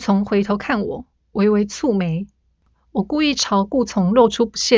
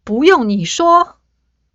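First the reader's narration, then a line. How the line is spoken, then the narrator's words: Loud, exasperated. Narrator (Chinese): 我一口气实在憋不住，大声开口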